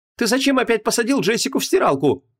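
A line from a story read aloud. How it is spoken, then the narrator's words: Exclaiming. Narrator (Russian): воскликнула Вон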